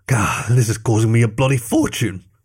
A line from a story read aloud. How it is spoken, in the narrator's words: he growled